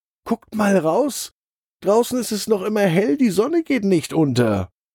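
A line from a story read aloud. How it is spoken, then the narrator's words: Excited. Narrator (German): sagt Freddy aufgeregt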